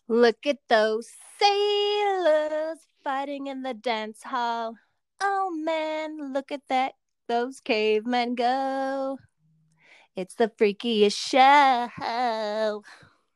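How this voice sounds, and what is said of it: Sings imitating a rock singer. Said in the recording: “my Bowie impression ... That was good”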